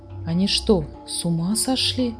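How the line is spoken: Whisper. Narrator (Russian): прошептала Фрекин Снорк

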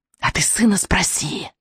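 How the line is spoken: Witch's hiss. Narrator (Russian): прошипела ведьма

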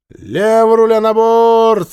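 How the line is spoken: Loud command. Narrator (Russian): громко скомандовала Женя

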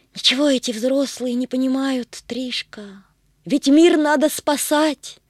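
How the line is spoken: Sad sigh. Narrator (Russian): грустно вздохнула Агата

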